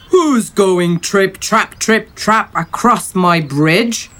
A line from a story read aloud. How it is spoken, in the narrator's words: roared